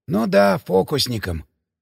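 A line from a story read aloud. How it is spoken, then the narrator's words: Offended mutter. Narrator (Russian): обиженно пробормотал Драницкий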